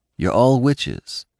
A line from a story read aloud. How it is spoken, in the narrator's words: he asked in an even tone